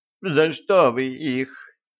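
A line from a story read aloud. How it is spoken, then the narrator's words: Sobbing. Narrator (Russian): всхлипнула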